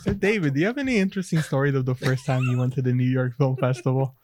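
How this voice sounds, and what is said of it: Smooth public radio host voice. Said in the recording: “Nobody needs to hear me doing NPR voice.”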